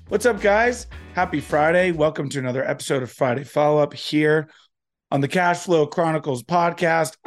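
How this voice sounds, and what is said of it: Sick voice from a cold. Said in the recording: “As you can hear in my voice, I am still getting over this cold.”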